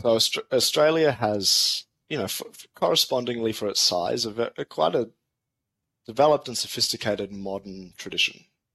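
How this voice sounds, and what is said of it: Australian accent. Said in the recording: “So, how long have you lived in Australia? I mean, your accent tells me your whole life.”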